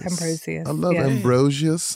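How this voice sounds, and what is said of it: Bad put-on British accent. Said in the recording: “wonderfully awful British accent”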